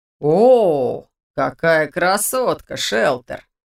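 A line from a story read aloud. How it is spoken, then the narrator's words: Insolent drawl. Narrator (Russian): протянул один из тех, кого я не знала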